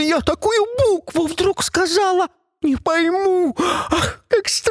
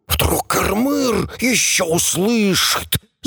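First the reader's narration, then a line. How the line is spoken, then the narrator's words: Creatures hissing. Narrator (Russian): Зашипели шаища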